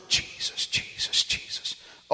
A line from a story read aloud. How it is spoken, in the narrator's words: hearing her whisper